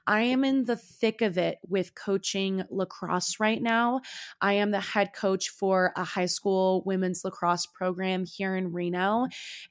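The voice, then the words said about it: Raspy, hoarse voice. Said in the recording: “my voice is a little sexier, if it's a little raspier ... I am a yeller”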